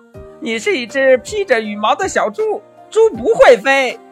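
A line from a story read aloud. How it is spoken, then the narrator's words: Laughing loudly. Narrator (Chinese): 猴子大笑着说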